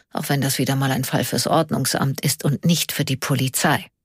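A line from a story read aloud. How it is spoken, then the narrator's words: Quiet murmur. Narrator (German): murmelte er leise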